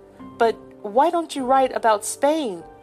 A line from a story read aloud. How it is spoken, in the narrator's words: cried Philip